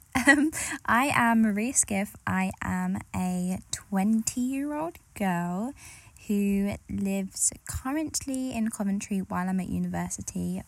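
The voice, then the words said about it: Essex-London English accent. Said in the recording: “a lot of people say I have an accent. I'm in between Essex and London, so sometimes the Essex accent really comes through, but sometimes I'm a little bit more posh”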